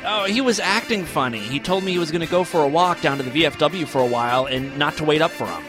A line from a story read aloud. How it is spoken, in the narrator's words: Emily responded quickly